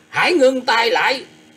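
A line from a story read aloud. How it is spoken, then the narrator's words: Sudden loud shout. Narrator (Vietnamese): bất thần có một tiếng quát to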